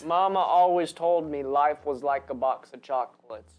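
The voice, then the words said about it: Forrest Gump character impression. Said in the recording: “your Forrest Gump impression. Was it good? Yeah, it was good.”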